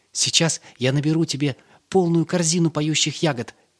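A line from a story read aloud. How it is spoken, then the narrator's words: Cheerful. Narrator (Russian): весело сказал Йосла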